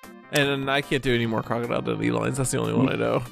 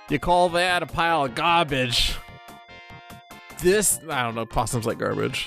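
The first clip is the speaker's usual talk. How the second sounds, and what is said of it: Poor put-on Australian accent. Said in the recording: “your Australian accent, better than your Scottish accent. Still not good, but better”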